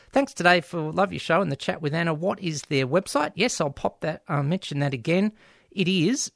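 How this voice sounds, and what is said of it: Usual voice. Nothing is said of it.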